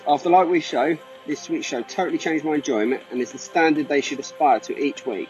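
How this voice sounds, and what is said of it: Smooth-voiced British accent. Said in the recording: “the guy has a velvety smooth voice ... he is from the UK ... He got the accent right there”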